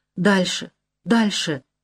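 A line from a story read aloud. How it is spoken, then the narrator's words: Muffled whisper. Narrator (Russian): глухо шепчет он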